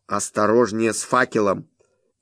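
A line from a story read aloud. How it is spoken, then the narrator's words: Sudden hiss. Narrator (Russian): вдруг прошипел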